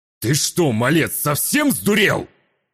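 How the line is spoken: Man yelling angrily. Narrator (Russian): завопил на меня мужчина

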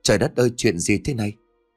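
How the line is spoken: Terrified trembling stammer. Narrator (Vietnamese): Ngọc khiếp sợ toàn thân run rẩy, miệng lắp bắp

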